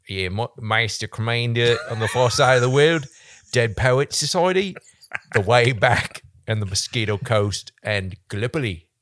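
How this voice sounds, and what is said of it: Put-on Australian accent, slightly Scottish. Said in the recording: “give me your best Australian accent ... you nailed it on the head with that accent ... I thought you went a little Scottish or something at first”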